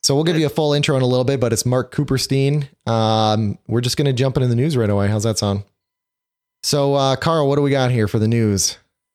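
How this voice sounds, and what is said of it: Sick, congested-sounding voice. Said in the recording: “I do have a cold this week, so I apologize for my voice.”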